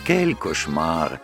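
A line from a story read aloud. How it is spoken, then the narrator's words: Sigh. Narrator (Russian): вздохнула француженка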